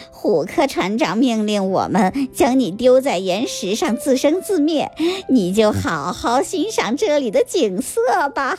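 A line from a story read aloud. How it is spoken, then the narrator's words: Sly sneering laugh. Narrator (Chinese): 斯密奸笑着对虎莲公主说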